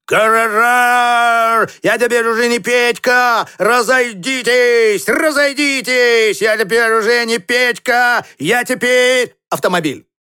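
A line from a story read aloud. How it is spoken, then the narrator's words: Shouting while running. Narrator (Russian): бегал Петька по панели и кричал он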